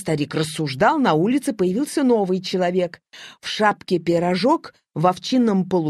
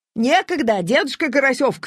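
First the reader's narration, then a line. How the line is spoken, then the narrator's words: Shouted reply. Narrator (Russian): крикнул в ответ Серпокрылов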